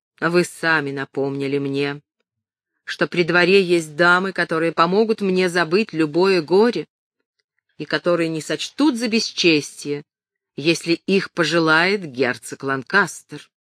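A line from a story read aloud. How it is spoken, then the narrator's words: Icy, clearly clipped words. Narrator (Russian): Он заговорил ледяным тоном, ясно чеканя каждое слово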